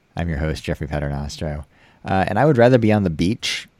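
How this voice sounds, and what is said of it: American accent. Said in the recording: “with an American accent”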